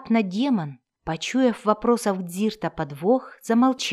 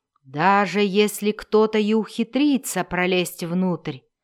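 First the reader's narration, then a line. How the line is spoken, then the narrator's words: Irritated growl, demon. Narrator (Russian): прорычал демон, раздраженный сомнениями эльфа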